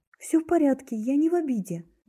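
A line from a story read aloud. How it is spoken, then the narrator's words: Quick reply. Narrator (Russian): быстро ответила я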